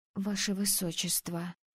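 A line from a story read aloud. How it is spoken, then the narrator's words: Whispered. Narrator (Russian): прошептала я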